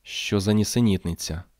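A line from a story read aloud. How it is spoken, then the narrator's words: Muttering. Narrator (Ukrainian): бурмотіла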